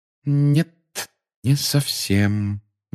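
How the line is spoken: Slow speech. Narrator (Russian): медленно проговорила она

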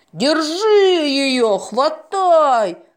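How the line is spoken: Crowd shouting. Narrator (Russian): закричали ломашки

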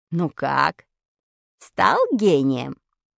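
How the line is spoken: Snide question. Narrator (Russian): ехидно спросил меня Вадик

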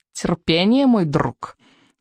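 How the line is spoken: Menacing purr. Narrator (Russian): угрожающе промурлыкал крючкозуб

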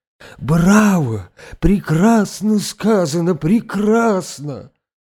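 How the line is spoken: Exclaimed. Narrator (Russian): воскликнул он

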